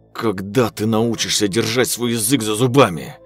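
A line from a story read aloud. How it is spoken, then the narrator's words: Angry hiss. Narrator (Russian): Зло зашипело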